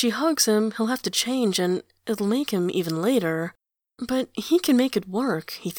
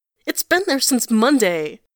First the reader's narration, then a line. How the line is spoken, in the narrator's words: he yells